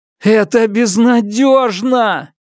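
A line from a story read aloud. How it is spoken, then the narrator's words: Shouting to the stars. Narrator (Russian): крикнул я звездам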